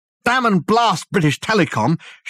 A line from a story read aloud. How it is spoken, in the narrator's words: shouted Dirk, the words coming easily from force of habit